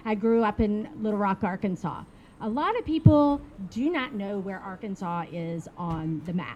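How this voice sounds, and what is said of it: Southern United States accent. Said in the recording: “I grew up in the southern part of the United States, if you can't tell by my accent. As I keep talking, it might get a little stronger”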